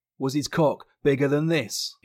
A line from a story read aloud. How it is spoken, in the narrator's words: he half yelled, using his back and legs to slam into her as hard as he could